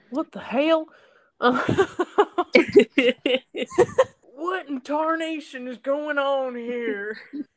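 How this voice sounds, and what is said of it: Exaggerated hick Southern accent. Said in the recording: “the more my accent comes out ... got really hick.”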